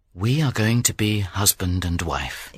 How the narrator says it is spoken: he said gently

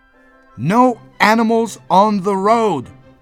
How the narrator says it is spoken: roared the police officer

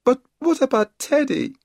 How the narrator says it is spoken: wailed Kipper

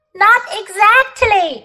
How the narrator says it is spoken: shouted Polly

